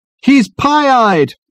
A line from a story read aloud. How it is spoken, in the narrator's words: his companions bawled happily